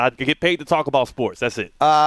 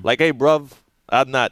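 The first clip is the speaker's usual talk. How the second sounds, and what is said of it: Poor put-on British accent. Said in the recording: “I don't do a good British accent ... I'm butchering it ... you sound very Jamaican”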